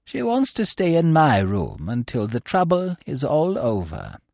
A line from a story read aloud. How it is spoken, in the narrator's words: she said in her refined, sweet voice